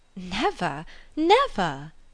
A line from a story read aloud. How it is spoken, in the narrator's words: cried with the most open eagerness